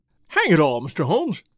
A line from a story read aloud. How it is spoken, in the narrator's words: cried the inspector